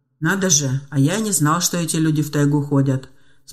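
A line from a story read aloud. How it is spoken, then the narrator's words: Calm remark. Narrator (Russian): спокойно заметил он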